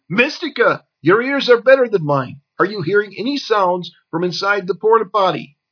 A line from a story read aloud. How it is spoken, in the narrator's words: He shouted